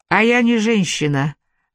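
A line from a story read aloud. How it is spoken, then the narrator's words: Sighing. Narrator (Russian): вздохнула Мот Блэнди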